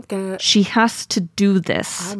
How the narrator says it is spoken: she says through gritted teeth

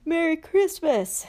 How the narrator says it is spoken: said Ron sleepily

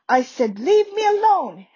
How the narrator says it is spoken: Harry shouted

